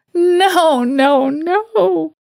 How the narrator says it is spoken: She moaned like a wounded animal

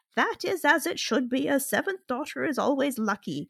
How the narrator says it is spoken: cackled the oldest inhabitant

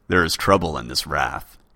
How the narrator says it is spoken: said, his voice so deep and strong that it seemed that even the candles flickered at the sound of it

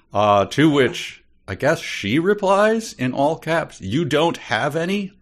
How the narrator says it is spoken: I yelled in madly

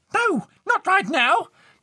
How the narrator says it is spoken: Marianne shrieked back

